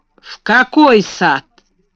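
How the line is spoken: Rough question. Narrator (Russian): спросил он грубо

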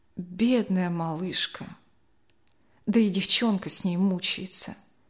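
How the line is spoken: Quiet old woman lamenting. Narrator (Russian): бабушка Ксения тихо запричитала

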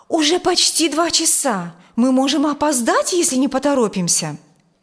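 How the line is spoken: Exclaimed urgently. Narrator (Russian): воскликнула

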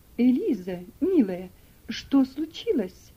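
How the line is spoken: Exclaimed. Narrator (Russian): воскликнула миссис Шельби

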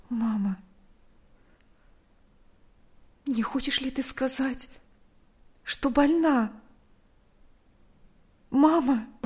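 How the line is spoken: Quiet frightened question. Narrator (Russian): тихо спросила

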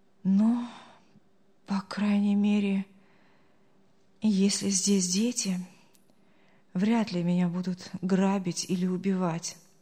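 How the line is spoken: Relieved sigh. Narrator (Russian): облегченно вздохнул Артур

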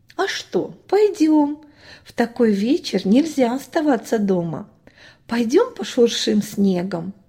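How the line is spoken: Mother's reply. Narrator (Russian): отозвалась мама

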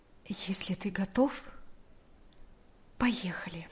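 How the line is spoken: Quiet, understanding. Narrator (Russian): Наташа поняла, что происходит в душе брата, и тихо сказала

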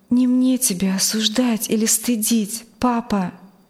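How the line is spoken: Trembling voice. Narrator (Russian): Дрожащим голосом сказала она

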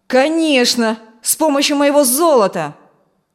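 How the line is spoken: Bellowing. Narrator (Russian): заорал Фрэнк

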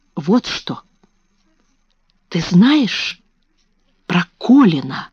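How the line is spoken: Whisper. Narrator (Russian): шепнула она

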